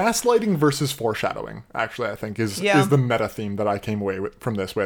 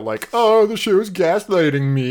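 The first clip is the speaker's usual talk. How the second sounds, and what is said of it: Impression of own voice. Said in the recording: “I love that impression of yourself.”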